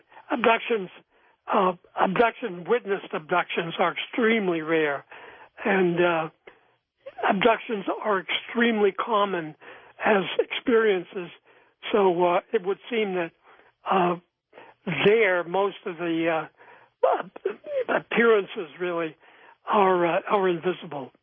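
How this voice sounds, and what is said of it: High, thin, reedy hoarse voice. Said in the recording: “apologize for my voice. On top of everything, I've had a kind of chronic bronchitis, so my voice has gone from its normal baritone up to a high, thin, reedy tenor”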